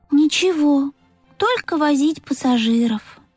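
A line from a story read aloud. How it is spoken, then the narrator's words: Sighing. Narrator (Russian): вздохнул Пых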